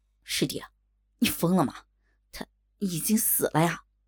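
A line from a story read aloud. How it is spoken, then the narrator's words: Shaken low rebuke. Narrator (Chinese): 吴峰心中也是一震，喉头不禁有些干燥，低声斥道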